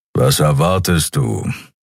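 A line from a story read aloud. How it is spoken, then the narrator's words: Grumbling. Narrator (German): brummte Keru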